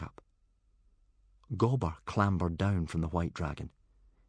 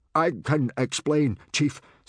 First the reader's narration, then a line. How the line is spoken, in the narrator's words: stammered Gober